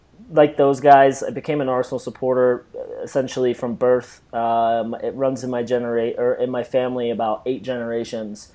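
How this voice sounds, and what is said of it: North London English accent. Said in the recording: “I can't tell from the accent, but I was born and raised in North London”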